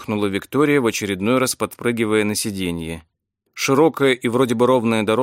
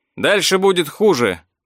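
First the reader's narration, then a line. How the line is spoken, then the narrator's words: Shouted reply. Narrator (Russian): прокричал в ответ Эдвард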